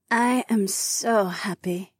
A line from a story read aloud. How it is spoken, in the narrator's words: she purred